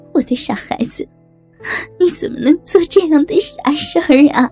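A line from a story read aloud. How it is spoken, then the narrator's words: Mother crying. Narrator (Chinese): 妈妈哭着说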